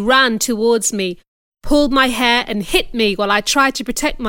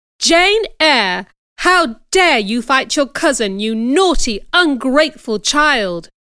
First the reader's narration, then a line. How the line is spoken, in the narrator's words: exclaimed my aunt